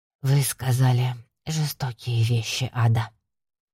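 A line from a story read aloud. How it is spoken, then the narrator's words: Whisper. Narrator (Russian): прошептала она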